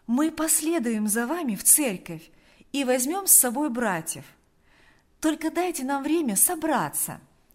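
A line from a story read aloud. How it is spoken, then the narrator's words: Kind, cheerful voice. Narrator (Russian): Она говорила добрым, жизнерадостным голосом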